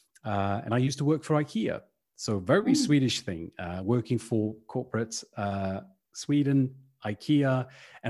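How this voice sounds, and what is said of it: Slight British accent. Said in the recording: “Got a little bit of a British accent”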